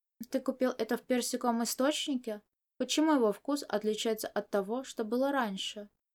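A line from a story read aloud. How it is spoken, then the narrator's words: Sudden quiet question. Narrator (Russian): Чуванин вдруг тихо спросил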